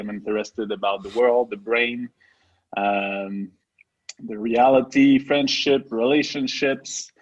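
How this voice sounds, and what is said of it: French Canadian accent in English. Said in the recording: “our funny accent ... we are two uh, French native guys. I'm from Quebec”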